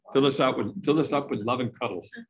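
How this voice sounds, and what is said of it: Imitated British English accent. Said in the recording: “she's this English lady ... I can't imitate her British accent.”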